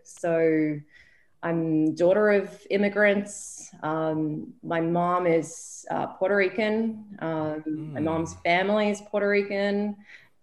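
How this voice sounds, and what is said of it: Australian accent. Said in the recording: “the accent coming into this... born in Melbourne, Australia, lived there the majority of my life”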